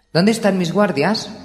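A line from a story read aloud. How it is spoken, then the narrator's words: Exclaimed. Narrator (Spanish): exclamó Dani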